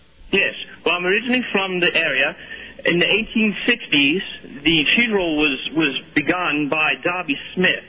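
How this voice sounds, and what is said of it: Bad fake British accent. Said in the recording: “it's a bad British accent. ... I do have a bad British accent. ... It's terrible, my good man. It's not legitimate.”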